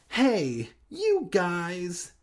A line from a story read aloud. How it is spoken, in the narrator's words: Hannah exclaimed, totally different than the pronunciation that Sloth would have done from Goonies, making a disgusted face